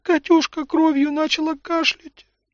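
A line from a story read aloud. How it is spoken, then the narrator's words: Tearful woman. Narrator (Russian): сквозь слезы произнесла жена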